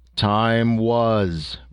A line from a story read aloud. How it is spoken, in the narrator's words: rumbled the image, still smiling but sternly